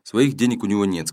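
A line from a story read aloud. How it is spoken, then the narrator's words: Plain. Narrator (Russian): сказала Дженни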